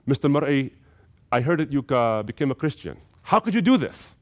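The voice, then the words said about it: Fairly thick Arabic accent. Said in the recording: “In a fairly thick Arabic accent”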